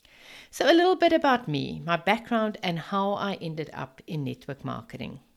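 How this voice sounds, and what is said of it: Afrikaans South African accent. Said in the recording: “this is my very Afrikaans accent.”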